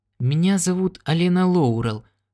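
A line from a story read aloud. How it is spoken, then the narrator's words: Uncertain speech. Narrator (Russian): сказала она неуверенно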